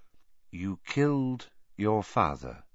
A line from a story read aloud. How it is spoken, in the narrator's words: Dumbledore said, in the same soft voice